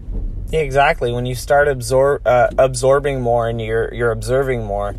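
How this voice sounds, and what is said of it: Usual voice. Nothing is said of it.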